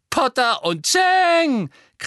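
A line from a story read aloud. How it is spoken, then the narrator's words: Shrieking, mocking giggling chorus. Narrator (German): kreischte Pansy, und ein höhnisch kichernder Chor begleitete sie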